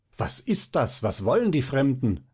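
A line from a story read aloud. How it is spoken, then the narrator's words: Many voices calling at once. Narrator (German): ruft alles durcheinander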